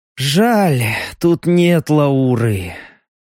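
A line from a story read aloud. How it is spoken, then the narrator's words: Sighing. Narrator (Russian): вздохнул Леха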